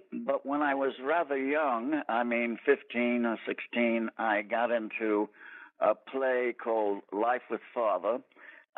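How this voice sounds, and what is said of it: Boston New England-sounding accent. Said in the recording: “A lot of people think that you're from the Boston, New England area because of your accent.”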